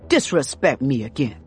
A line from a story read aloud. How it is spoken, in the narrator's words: she snaps